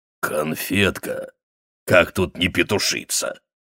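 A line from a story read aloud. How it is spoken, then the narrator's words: Sudden coarse laugh. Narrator (Russian): Арчер вдруг грубо хохотнул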